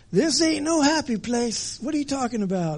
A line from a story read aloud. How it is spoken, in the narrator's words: Brer Bear yelling